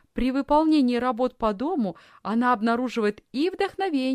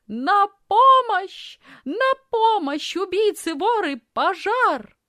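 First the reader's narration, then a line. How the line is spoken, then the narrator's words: Loud scream. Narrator (Russian): громко закричала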